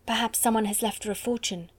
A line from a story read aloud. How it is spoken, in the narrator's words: Jessie whispered